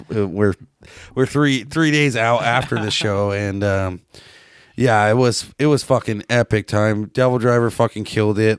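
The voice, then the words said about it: Slightly harsh, hoarse voice. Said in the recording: “I don't know if you can still hear it in my voice. My fucking shit's a little harsh.”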